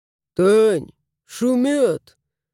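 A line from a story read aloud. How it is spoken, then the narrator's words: Mumbled. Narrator (Russian): промямлил хозяин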